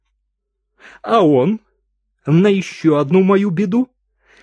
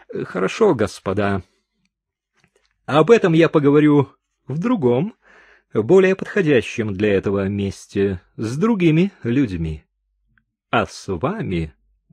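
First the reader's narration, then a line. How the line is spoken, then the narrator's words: Pause, then pointedly indifferent calm. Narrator (Russian): Мадам еще немного помолчала и сказала уже совершенно спокойным, даже подчеркнуто равнодушным голосом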